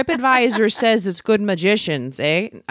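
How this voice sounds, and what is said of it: Put-on Wisconsin Fargo-style accent. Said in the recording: “That's not how they talk in Cincinnati ... I'm just throwing all the accents out. ... Like Wisconsin. ... I'm rewatching Fargo.”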